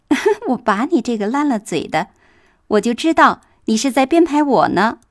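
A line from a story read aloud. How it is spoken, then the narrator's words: Laughing. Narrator (Chinese): 黛玉笑道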